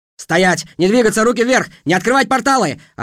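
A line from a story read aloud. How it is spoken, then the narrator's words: Shouting. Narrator (Russian): орали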